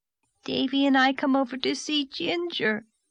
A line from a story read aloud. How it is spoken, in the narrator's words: sobbed Dora